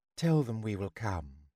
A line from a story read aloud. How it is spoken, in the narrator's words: who said quietly